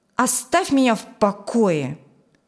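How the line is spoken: Cold woman. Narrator (Russian): холодно сказала она

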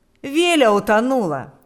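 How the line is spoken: Exclaiming. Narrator (Russian): воскликнул он

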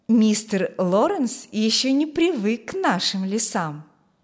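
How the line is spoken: Calm. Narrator (Russian): сказала спокойно

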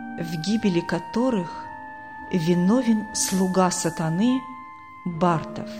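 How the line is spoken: Quiet thoughtful female repetition. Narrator (Russian): В задумчивости она тихо повторяла

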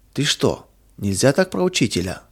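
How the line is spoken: Frightened exclamation. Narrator (Russian): воскликнул испуганно Миша

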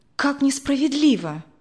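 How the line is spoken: Exclaiming. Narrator (Russian): воскликнула Мария Владимировна

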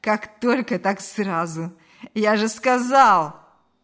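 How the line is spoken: Dirty laugh. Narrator (Russian): грязно рассмеялся Ильяс

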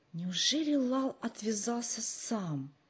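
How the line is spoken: Whispered question. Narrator (Russian): шепотом спросил Джо

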